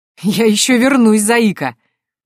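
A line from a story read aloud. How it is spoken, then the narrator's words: Laughing. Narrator (Russian): рассмеялся генерал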